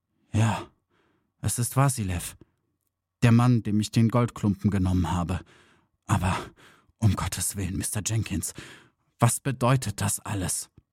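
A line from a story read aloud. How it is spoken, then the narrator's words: Quiet fearful. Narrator (German): erhob schwer und mühsam den Kopf, blickte den Detektiv mit einem furchtsamen Blick an und sagte leise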